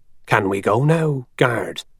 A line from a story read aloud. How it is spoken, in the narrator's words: he said to Jenkins in a low, worried voice